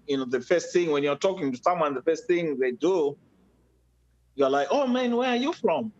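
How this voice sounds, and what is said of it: Zimbabwean English accent. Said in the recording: “obviously, I have an accent ... I was born and raised in Africa, uh, specifically Zimbabwe”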